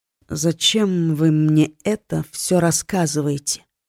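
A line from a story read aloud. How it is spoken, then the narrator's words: Hoarse young woman's question. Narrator (Russian): Хриплым голосом спросила девушка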